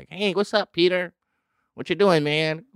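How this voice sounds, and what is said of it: Mock white-guy accent. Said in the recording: “do a white scent”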